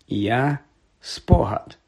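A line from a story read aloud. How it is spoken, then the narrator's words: Calm reply. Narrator (Ukrainian): спокійно відповів Реддл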